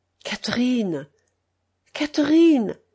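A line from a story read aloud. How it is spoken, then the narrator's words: Tender, hoarse, timid call. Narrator (French): Il l'appelait d'une voix tendre, rauque, timide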